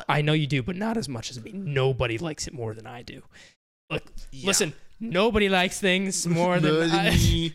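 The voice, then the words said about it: Poor imitation of another person's voice. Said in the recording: “We are terrible impersonators.”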